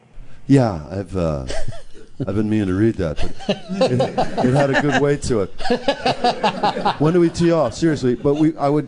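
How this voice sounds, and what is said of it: Impression of Bill Murray. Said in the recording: “This is Joel Murray doing an impression of Bill Murray.”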